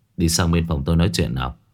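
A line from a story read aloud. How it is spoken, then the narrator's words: Warm, gentle, smiling. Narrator (Vietnamese): Hội trưởng Tào Khôn mỉm cười, giọng nói rất ôn hòa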